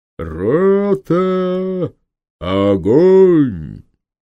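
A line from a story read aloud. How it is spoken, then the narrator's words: Deep drawn-out shout, captain. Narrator (Russian): густым голосом, очень протяжно, так показалось Самсону, закричал капитан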